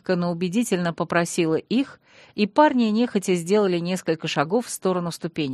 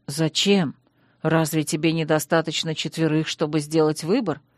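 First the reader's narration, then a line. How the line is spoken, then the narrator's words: Muttering. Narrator (Russian): пробормотал Сиверт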